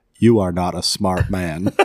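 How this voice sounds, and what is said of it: Forrest Gump character voice impression. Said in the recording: “I'm going to say this in my Forrest Gump voice.”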